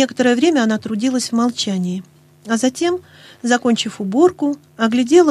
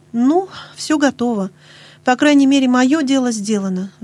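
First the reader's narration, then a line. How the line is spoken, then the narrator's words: Sigh. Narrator (Russian): вздохнула Нэнси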